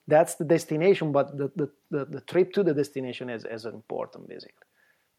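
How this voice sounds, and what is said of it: Italian accent. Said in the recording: “amazing Italian accent ... that is clearly not going away.”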